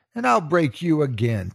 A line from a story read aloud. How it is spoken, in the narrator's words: Chica yells